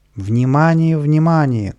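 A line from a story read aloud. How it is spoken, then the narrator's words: Loudspeakers shouting. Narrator (Russian): кричали громкоговорители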